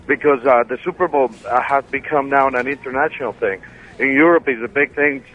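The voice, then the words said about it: Colombian Spanish-accented English. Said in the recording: “A lot like your accent. You got a cool accent. Where are you from? ... Colombia.”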